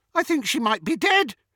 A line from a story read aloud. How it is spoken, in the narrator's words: shouted with delight